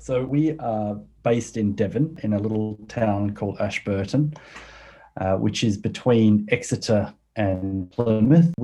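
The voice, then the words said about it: Australian accent. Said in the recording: “I do hear that you have an Australian accent.”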